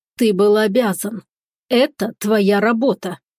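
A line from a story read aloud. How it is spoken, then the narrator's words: Through gritted teeth. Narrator (Russian): процедила сквозь зубы Виола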